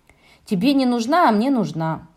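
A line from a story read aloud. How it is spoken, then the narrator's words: Grumbling. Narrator (Russian): проворчал Шурик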